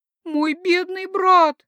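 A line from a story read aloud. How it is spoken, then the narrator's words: Grief-stricken sobbing exclamation. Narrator (Russian): горестно воскликнула она и возрыдала с удвоенной силой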